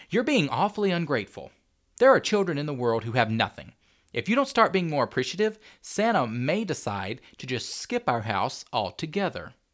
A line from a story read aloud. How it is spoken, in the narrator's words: Tanya said, a little more sharply than she'd intended